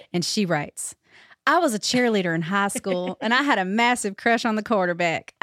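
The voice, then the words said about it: Put-on South Carolina accent. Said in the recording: “this story makes me want to do an accent because this next story comes from Amy in South Carolina”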